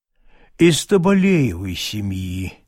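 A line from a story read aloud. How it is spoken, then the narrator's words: Slow. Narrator (Russian): медленно отвечал бурмистр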